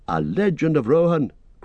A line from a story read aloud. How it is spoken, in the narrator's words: cried Legolas